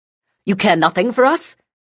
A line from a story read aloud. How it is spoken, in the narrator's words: Silence snapped